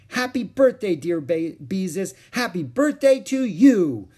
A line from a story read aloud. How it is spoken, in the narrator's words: sang Ramona at the top of her voice